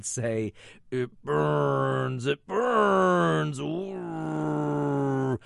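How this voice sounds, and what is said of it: Imitates another person's voice. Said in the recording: “my best Mercedes McCambridge impression”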